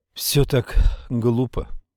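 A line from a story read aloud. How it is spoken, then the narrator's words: Sighed. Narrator (Russian): вздохнула девушка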